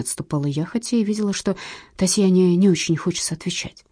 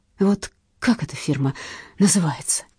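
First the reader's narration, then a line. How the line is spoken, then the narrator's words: Undertone. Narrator (Russian): проговорила она вполголоса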